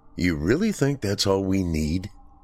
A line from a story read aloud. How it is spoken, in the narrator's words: Nick asked